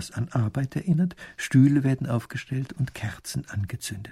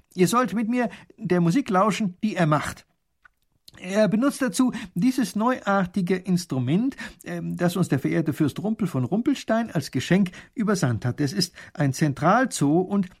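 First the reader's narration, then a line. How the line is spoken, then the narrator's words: Loud. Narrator (German): laut sagt der Großherzog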